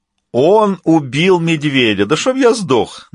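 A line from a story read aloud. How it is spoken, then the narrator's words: Mocking remark. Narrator (Russian): насмешливо бросил Дентос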